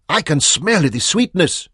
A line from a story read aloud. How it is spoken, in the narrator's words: shouted